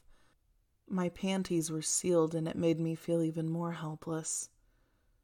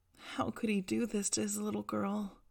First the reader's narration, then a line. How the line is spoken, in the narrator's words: I pleaded, begged, and whimpered